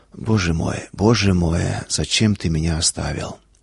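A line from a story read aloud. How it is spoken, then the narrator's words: Whisper. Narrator (Russian): Шепот, не вопль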